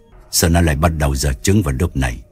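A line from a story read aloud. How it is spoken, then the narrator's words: Muttering man. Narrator (Vietnamese): ông lẩm bẩm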